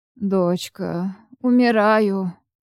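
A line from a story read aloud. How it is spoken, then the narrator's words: Moaning. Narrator (Russian): простонал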